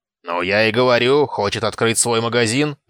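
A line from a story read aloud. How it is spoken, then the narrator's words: Barked. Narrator (Russian): рявкнул Норт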